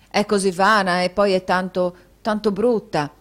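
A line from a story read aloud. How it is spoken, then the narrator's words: Plain. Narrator (Italian): disse la ragazza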